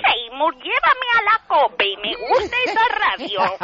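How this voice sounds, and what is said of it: Imitates a cartoon mother's voice. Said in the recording (Spanish): “Haz la madre de Skinner, que es brutal ... Muy buena”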